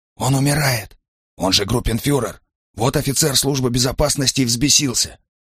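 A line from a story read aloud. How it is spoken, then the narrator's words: Barely audible. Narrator (Russian): чуть слышно ответил он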